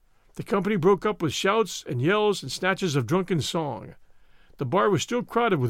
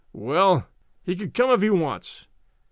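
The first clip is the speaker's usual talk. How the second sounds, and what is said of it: Surly, grudging tone. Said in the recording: “he said in a surly voice.”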